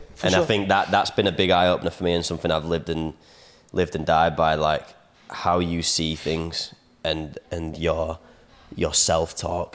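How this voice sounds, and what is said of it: Leeds accent. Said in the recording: “my own Leeds accent”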